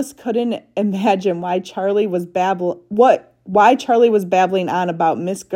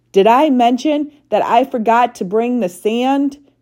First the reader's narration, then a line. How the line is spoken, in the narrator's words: Charlie asked, shouting even louder now in an attempt to try to cover up the racket Alice was making